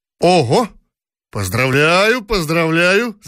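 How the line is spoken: Rider shouting. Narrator (Russian): закричал всадник

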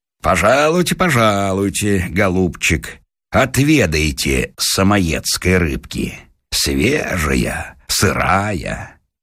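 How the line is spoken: Laughing. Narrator (Russian): говорит, смеясь

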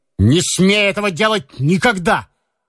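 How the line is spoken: Shouted. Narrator (Russian): крикнул он

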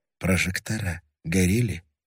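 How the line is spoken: Quiet. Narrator (Russian): тихо сказал Левин

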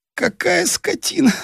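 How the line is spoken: Moaning. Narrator (Russian): стонал он

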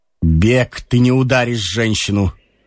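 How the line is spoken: Calm. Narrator (Russian): сказал Ромашов спокойно

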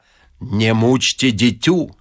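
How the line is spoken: Deep booming voice. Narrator (Russian): забасил он наконец

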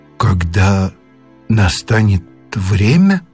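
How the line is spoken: Trembling repetition. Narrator (Russian): дрожащим голосом повторил Моррис

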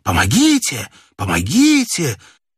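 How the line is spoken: Hoarse desperate repeated shouting. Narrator (Russian): чей-то хриплый отчаянный голос несколько раз прокричал

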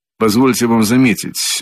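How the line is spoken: Dry reply. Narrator (Russian): отвечал он сухо

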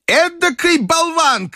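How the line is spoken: Grandmother shouting. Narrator (Russian): крикнула бабушка

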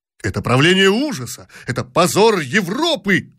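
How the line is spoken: Shouting. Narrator (Russian): кричал другой

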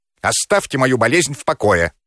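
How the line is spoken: Angry shout. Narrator (Russian): сердито крикнул Сысоев

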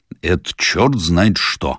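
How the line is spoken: Grumbling. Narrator (Russian): проворчал участковый

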